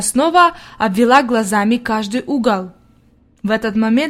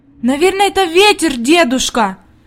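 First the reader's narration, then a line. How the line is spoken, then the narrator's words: Anxious exclamation. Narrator (Russian): воскликнула Хади, и в глазах ее появилась тревога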